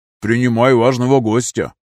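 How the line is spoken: With a snort. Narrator (Russian): Снупи хмыкнул

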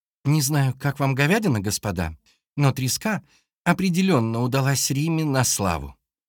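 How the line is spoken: Cheerful. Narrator (Russian): весело сообщила Машенька

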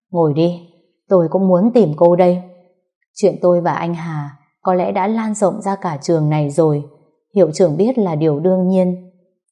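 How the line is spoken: Sighing. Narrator (Vietnamese): thở dài rồi nói

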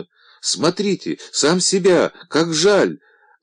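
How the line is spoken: Sudden shout. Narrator (Russian): Вдруг крикнула

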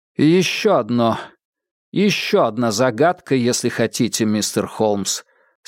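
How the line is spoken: Plain. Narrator (Russian): сказал Адамс

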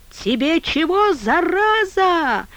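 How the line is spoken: Shrill yell, old man. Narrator (Russian): визгливо возопил старик во след

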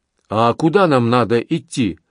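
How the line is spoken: Heavy accent. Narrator (Russian): проговорил он с сильным акцентом

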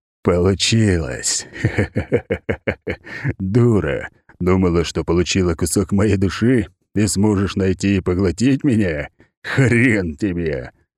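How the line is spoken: Laughing adult man. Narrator (Russian): Смеялся мужчина лет 30

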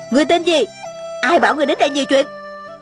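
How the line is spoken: Shrill shout. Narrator (Vietnamese): Tôn Trọng Quân thè thé hét lên

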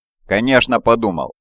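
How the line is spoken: Sharp. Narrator (Russian): резко ответил он

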